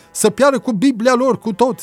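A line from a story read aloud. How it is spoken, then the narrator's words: Peasant shouting at full lungs. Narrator (Romanian): strigă un țăran, cât îl țineau plămânii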